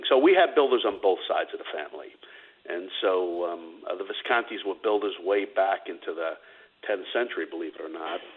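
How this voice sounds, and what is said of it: New York accent. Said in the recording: “Do I hear a little bit of a New York accent there? ... You do, my friend.”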